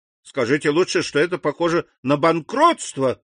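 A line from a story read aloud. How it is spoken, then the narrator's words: Exclamation. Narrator (Russian): воскликнул господин Бовиль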